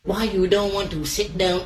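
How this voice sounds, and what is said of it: Put-on Vietnamese accent. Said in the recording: “Some sort of Asian? ... That's Vietnamese.”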